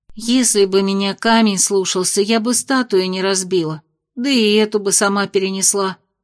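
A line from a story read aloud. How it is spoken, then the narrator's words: Sighing. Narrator (Russian): вздохнула Нора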